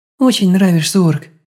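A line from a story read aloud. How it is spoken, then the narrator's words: Soft, smiling. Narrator (Russian): мягко улыбнулась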